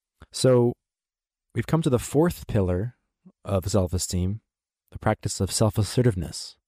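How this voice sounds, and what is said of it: Slightly unclear voice from a cold. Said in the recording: “my voice might be a little bit unclear, just recovering from a cold here”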